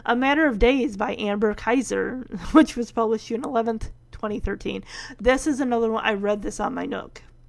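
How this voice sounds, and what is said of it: Hoarse voice. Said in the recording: “oh my goodness, my voice... You can probably already tell my voice is starting to sound a little hoarse.”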